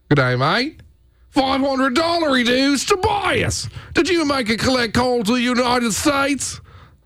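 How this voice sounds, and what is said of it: Put-on Australian accent. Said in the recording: “I love a good Australian accent. Yeah. Hard accent to duplicate. ... Yeah, that's pretty good. ... Not bad.”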